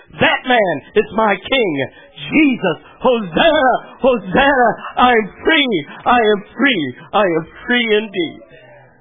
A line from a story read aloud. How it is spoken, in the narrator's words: in a strong, understandable shout, he declares